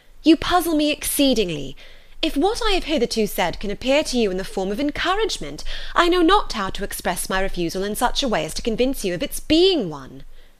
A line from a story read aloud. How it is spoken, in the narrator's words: cried Elizabeth with some warmth